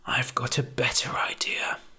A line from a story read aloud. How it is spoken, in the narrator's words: he murmured